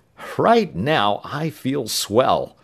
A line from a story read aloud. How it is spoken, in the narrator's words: Tom declared, chuckling